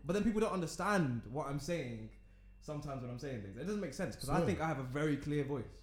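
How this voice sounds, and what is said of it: London accent. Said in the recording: “It's clear, but I can tell it's a London accent.”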